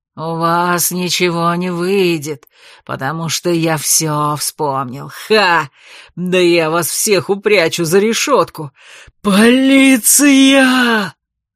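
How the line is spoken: Hoarse shout. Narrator (Russian): Градоначальник хрипло закричал

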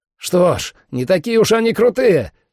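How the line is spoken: Loud bark. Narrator (Russian): рявкнул Сэм

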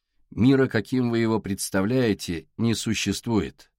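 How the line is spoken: Quiet fisherman. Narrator (Russian): негромко сказал рыбак

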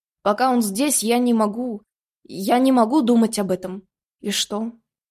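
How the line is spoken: Calm but hurt. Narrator (Russian): Его голос звучал спокойно, но в нем сквозила обида

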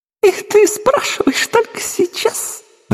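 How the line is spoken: Laughing loudly. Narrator (Russian): расхохоталась

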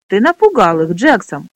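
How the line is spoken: Exclaiming. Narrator (Russian): воскликнул Пьемур

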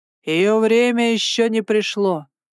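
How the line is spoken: Booming. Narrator (Russian): прогремел он

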